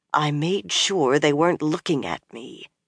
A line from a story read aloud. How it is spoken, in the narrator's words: Nynaeve muttered